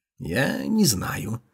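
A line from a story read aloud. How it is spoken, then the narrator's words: Quiet. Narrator (Russian): тихо начал Дацин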